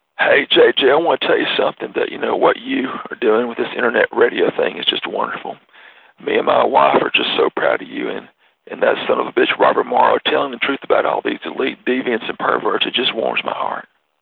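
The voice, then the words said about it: Imitates another person's voice. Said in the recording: “my Bill Clinton imitation.”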